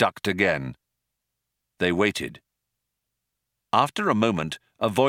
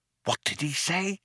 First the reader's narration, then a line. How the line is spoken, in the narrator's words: whispered Ford in astonishment